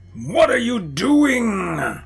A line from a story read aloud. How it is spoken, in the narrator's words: they barked, prison guards